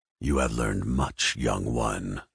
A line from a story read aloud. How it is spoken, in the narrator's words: Darth Vader rasped